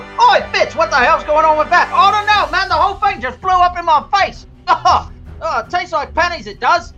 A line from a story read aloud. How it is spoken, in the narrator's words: filled with panic shouts